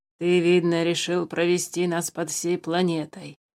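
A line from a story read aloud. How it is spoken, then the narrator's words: Displeased grumble. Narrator (Russian): недовольно пробурчал Тулис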